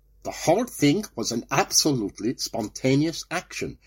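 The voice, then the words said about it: Very bad fake German accent. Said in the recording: “That is the worst German accent I've ever heard.”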